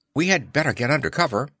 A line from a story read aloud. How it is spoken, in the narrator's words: Gertie said nervously